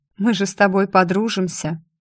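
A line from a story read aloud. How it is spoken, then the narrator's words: Snort. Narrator (Russian): фыркнул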